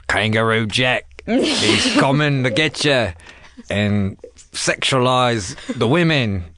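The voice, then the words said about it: Put-on Australian accent. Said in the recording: “do your Australian accent”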